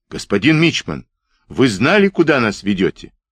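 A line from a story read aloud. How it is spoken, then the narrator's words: Shout under fire. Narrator (Russian): Он отскочил под пулями, крикнув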